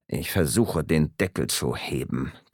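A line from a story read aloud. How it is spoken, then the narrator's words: Growling. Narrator (German): knurrte Maas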